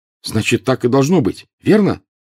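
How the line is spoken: Heated exclamation. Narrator (Russian): горячо воскликнул Гарри

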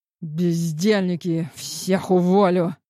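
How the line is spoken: Angry growl. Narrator (Russian): в сердцах рыкнул Бершев

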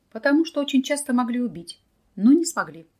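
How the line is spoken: Calm reply. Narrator (Russian): тоже спокойно ответил Николай

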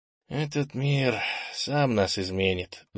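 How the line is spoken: Sighing. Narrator (Russian): вздохнул Кенни

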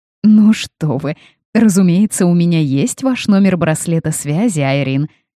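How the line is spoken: Laughing woman. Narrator (Russian): засмеялась женщина

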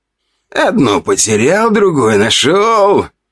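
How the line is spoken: Shrill giggle. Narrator (Russian): визгливый смешок

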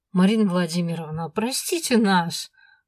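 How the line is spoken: Interjected. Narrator (Russian): вставил Дэн, сердито зыркнув

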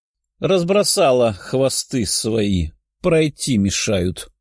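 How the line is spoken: Grumbling. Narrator (Russian): проворчала Лиза

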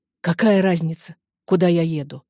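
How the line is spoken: Desperate exclamation. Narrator (Russian): в отчаянии воскликнул Сепенкур

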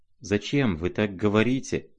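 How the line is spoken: Mumbling. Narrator (Russian): бормотал он

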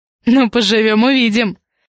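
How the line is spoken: Chuckled. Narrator (Russian): хохотнул Алексей

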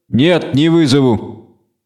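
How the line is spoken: Calm, witcher speaking. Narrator (Russian): спокойно сказал ведьмак

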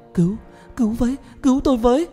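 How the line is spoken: Terrified scream. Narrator (Vietnamese): tay chân run rẩy, tôi hét lên

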